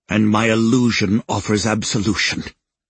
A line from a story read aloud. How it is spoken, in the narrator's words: he says with a snort